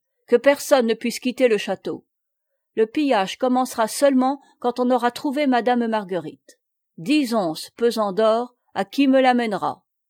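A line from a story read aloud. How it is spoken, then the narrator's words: Shouted. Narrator (French): cria-t-il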